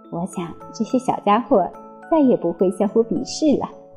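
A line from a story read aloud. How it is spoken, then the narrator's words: Soft, happy mother. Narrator (Chinese): 妈妈看着他们幸福的笑了，她轻声的对哥茶说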